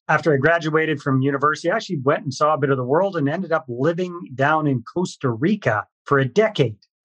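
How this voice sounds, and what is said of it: Canadian English accent. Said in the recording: “you can probably pick up from my accent. I'm Canadian, born and raised in British Columbia.”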